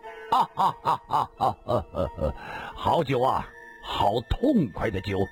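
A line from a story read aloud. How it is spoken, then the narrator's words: Long hearty laugh. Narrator (Chinese): 李寻欢 仰天长笑道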